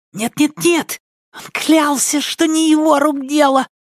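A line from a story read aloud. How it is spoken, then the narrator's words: Agitated fussy cry. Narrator (Russian): взволнованно вскричал суетливый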